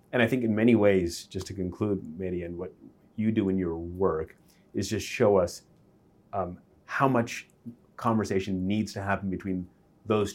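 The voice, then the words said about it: NPR-style radio voice. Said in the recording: “You do have an NPR voice.”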